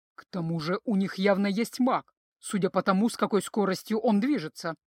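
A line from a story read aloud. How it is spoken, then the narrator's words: Grumbling centaur. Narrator (Russian): проворчал кентавр Ахислес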